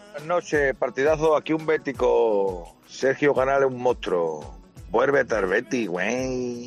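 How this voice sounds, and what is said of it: Mexican Spanish accent. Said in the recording (Spanish): “te lo dicen así, con acento mexicano”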